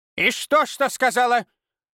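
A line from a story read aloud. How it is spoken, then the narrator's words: Barking snap. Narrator (Russian): рявкнула Ирма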